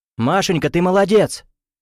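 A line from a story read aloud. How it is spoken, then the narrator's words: Calling out. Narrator (Russian): крикнул Гуров жене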